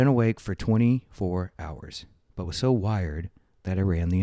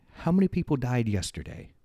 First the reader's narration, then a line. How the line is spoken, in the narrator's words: I asked